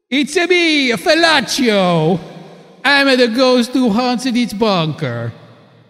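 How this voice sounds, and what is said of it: Stereotyped Italian accent. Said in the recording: “what is that voice? Some kind of an Italian stereotype accent?”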